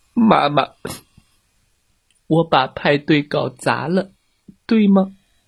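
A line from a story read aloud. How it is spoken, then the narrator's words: Quiet, small voice. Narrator (Chinese): 爱哭公主她小声地说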